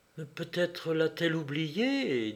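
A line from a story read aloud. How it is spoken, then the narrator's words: Unsteady hesitant voice. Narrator (French): dit Mathy d'une voix mal assurée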